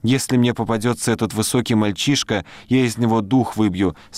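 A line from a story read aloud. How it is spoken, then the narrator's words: Plain. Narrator (Russian): сказала девочка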